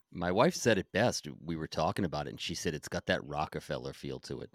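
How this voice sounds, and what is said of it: Rhode Island accent, dropped R. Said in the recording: “Did I just drop an R? Oh, that Rhode Island accent.”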